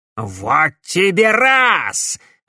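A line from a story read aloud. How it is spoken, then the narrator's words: Furious yell. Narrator (Russian): разъяренно завопил Корнелиус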